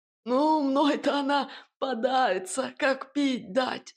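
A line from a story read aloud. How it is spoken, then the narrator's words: Hoarse smug smirk. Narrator (Russian): с превосходством ухмыльнулся сиплый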